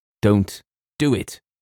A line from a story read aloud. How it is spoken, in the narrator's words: cried James with extraordinary vehemence